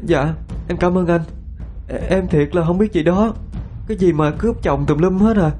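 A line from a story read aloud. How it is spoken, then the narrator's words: Sniffling tearful. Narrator (Vietnamese): Thắm sụt sùi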